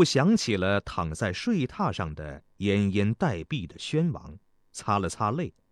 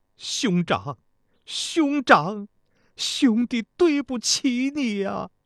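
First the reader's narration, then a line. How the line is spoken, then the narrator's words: Crying while speaking. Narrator (Chinese): 哭着，一边走一边说道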